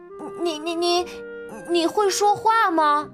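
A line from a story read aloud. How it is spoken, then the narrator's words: Stammering question. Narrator (Chinese): 他结结巴巴的问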